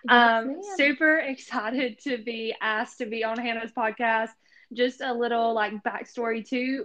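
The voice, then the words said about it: Southern American accent. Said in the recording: “if you can't tell by my accent, I am a Southern girl”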